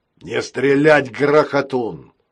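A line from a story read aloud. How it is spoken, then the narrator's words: Shouting. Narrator (Russian): крикнул он рогатому роботу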